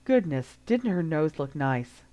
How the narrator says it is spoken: Harry snorted

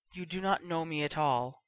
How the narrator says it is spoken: said quietly

